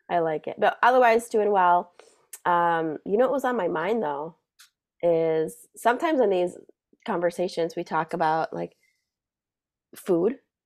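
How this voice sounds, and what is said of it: Slightly raspy, husky voice. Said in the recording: “dealing with this super sexy ... this like voice ... take up a phone line side gig ... My voice is still a little raspy.”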